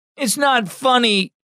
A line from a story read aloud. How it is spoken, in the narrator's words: Landon wailed